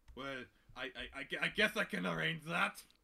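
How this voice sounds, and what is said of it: Put-on Scottish accent. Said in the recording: “Just a never-ending shift of accents. ... That's pretty much as good as our Scottish impressions go as well.”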